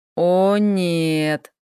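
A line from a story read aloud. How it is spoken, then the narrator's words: Drawn-out, martyred. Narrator (Russian): мученически протянул Хэл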